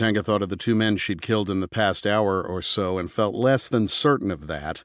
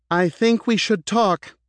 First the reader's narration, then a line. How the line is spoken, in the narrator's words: she called out